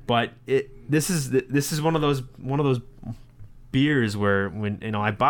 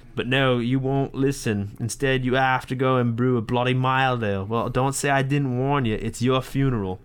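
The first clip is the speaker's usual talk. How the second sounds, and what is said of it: Deliberately bad put-on British accent. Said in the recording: “my terrible British accent”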